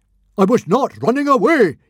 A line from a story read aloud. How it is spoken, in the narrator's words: yelled Stoic